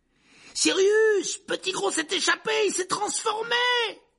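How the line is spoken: Shouted. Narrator (French): cria Harry

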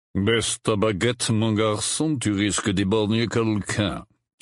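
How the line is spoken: Deep growling voice. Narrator (French): dit une voix grave, semblable à un grognement

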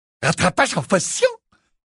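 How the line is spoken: Disdainful exclamation. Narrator (French): s'exclama dédaigneusement Zacharias Smith

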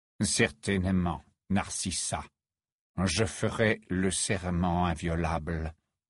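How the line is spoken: Low voice. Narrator (French): dit à voix basse

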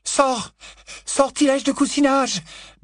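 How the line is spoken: Stammering. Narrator (French): balbutia Hermione

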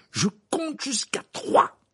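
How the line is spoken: Shouted. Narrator (French): cria Harry

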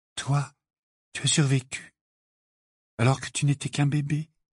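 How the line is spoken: Half-voiced. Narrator (French): dit-elle à mi-voix

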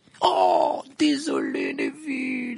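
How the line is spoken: Exclaiming amid laughter. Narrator (French): s'écria Fred parmi les éclats de rire

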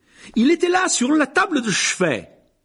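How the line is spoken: Yelling. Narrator (French): hurlait-il

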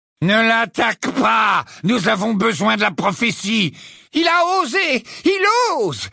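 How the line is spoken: Incoherent screaming. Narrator (French): hurla Bellatrix dans une suite de mots incohérents

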